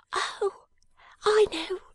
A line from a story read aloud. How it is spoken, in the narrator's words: cried Jenny